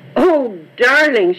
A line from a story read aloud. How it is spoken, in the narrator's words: cried